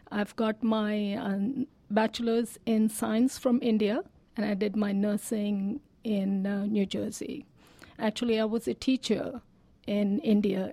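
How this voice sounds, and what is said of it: Speaks with an Indian accent. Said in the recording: “my accent would be difficult with school children”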